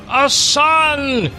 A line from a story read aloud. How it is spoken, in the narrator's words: shouted Melchior